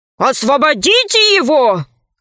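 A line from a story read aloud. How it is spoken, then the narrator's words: Shout from crowd. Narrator (Russian): крикнул из толпы второй мудрец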